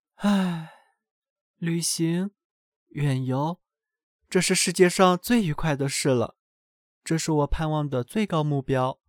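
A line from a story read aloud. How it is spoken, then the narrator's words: Sighing. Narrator (Chinese): 学生叹息着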